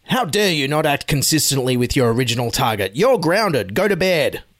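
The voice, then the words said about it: Imitates another person's voice. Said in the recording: “my Scott Morrison impersonation”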